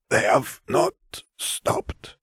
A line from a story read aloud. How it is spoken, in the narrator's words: Vare rasped